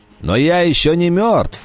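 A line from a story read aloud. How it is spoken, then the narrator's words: Shouting. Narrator (Russian): закричал Вольф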